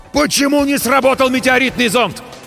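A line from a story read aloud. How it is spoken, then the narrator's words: Yelled in unison. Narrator (Russian): В один голос заорали мы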